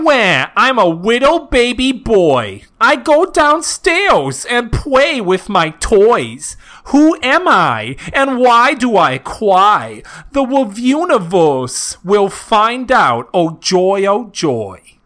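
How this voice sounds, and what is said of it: Exaggerated baby voice. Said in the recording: “my baby voice”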